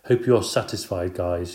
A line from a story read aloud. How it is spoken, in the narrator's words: said